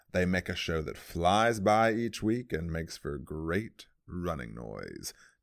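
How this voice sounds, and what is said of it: Radio announcer voice. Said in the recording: “I started to try to get into my, like, radio announcer voice there.”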